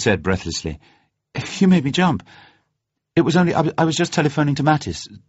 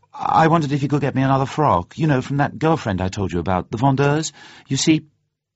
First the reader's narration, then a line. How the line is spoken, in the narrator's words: she talked quickly, her words coming out in a persuasive jumble